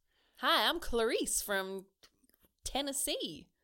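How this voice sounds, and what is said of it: Weak Southern accent, voice pitched higher. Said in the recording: “That was just your normal voice, but an octave higher. ... Which is like a Southern American thing, right?”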